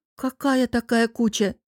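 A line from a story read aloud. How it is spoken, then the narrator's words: Groaning. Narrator (Russian): уточнила и простонала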